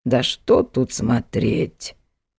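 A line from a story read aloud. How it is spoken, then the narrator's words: Creaky old woman. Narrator (Russian): проскрипела одна из старух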